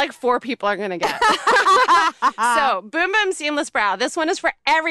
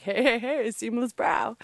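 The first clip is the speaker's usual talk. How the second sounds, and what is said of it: Poor impression of a TV character. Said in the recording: “that was a terrible impression. He sounded nothing like that.”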